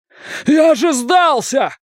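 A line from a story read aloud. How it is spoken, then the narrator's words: Shouting in pain. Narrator (Russian): кричал он, прижимая изувеченную руку к груди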